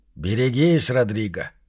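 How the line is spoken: Quiet. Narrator (Russian): промолвил он тихо

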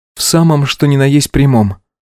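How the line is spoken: Calm, emotionless. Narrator (Russian): говорила Алина спокойно, безэмоционально

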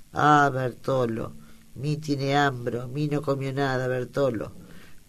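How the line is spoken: Pitiful voice. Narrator (Spanish): dicho con voz lastimera

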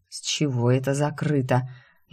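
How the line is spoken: Sleepy mumble. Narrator (Russian): сонно, едва борясь с дремотой, бормочу

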